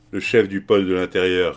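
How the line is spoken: Curt tone. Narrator (French): répondit-il d'un ton bref

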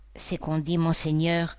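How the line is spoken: Timid. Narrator (French): dit timidement Julien

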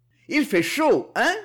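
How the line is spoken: Shout. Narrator (French): lui cria Manuel

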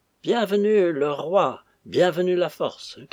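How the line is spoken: Shouting. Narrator (French): criait-il

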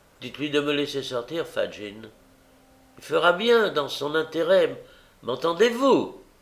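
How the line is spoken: Angry cry, foot stamping. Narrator (French): s'écria Nancy en frappant du pied sur le plancher

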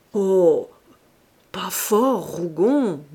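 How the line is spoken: Murmured. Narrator (French): murmura-t-il

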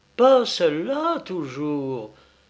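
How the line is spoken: Stung, indignant exclamation. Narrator (French): s'écria Pélagie, piquée au vif

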